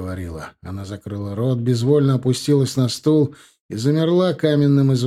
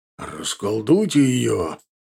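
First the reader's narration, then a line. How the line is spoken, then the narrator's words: Angry growl. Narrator (Russian): прорычал Ардан, чувствуя, как внутри закипает что-то недоброе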